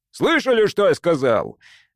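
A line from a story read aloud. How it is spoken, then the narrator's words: Bark. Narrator (Russian): рявкнул он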